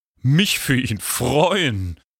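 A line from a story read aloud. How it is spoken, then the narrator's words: Mocking. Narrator (German): höhnte Draco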